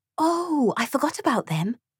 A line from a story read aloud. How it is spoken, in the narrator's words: whispered Mira